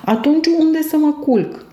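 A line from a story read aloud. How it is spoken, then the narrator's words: Sobbing. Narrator (Romanian): zise ei plângând în hohote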